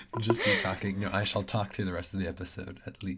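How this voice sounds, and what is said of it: Hoarse voice from illness. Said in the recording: “I clearly am also sick ... please excuse my extremely hoarse voice”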